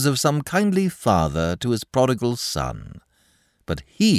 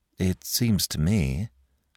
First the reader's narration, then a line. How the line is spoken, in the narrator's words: said Mike gloomily